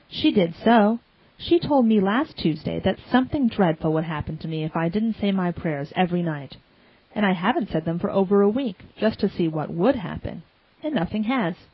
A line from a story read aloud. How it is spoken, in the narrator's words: concluded Davy in an aggrieved tone